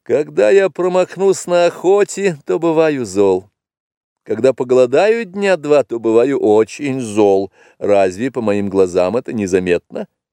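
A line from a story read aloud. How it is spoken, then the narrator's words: Laughing reply. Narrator (Russian): тот ответил ей, засмеявшись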